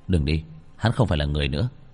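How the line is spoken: Cold. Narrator (Vietnamese): Bạch Thường lạnh lùng

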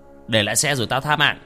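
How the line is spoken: Masked threatening shout. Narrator (Vietnamese): hắn bịt kín mặt mà quát

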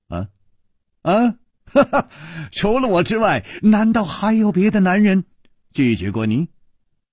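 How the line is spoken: Laughing. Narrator (Chinese): 楚留香笑着说

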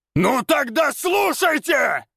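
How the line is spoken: Very loud echoing yell. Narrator (Russian): Завопил так громко, что его голос эхом прокатился

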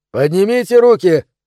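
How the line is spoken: Shout. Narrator (Russian): крикнул Тим

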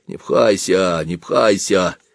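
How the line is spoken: Calm bass grumbling. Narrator (Russian): спокойно ворчал бас

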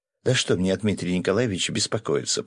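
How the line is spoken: Mumbling. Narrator (Russian): пробормотала Катя

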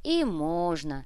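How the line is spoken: Sighing. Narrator (Russian): вздохнул лейтенант

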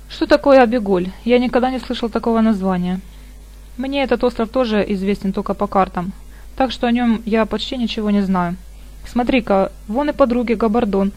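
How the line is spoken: Cold question. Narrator (Russian): холодно спросил

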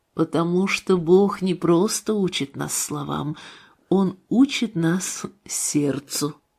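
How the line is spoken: Calm answer. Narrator (Russian): Илья ответил спокойно

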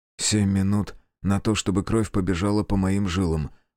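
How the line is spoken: Mutter. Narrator (Russian): пробормотал Кику

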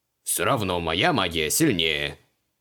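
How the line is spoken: Snorting. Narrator (Russian): фыркнул Креол

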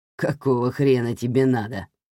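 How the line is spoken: Mocking grunt. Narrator (Russian): насмешливо хмыкнул Кеннет

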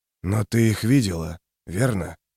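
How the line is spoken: Hoarse rasp. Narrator (Russian): прохрипел трясучка

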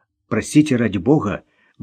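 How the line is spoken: Mumbled apology. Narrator (Russian): бормотал он извинения

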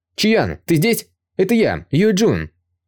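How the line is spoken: Loud shout. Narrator (Russian): громко закричал Юя

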